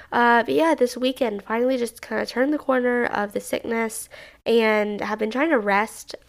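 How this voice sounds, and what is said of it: Slightly off, unwell-sounding voice. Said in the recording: “my voice is a little bit weird, so I'm sorry if this episode sounds slightly off”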